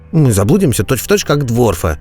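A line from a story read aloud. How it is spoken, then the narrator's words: Grumbling while chewing. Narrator (Russian): проворчал Реджис, чавкая лепешкой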